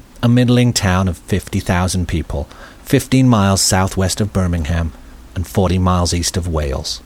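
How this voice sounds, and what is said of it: Kidderminster English accent. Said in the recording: “I grew up in Kidderminster. I know, you can tell by the accent.”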